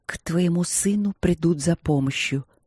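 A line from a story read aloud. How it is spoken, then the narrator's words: Whispering in ear. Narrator (Russian): прошептала она супругу на ухо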